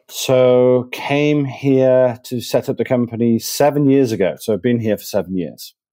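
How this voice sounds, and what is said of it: Manchester English accent. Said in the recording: “this probably wasn't the accent that you were probably expecting ... you come from the northeast of the UK, from Manchester”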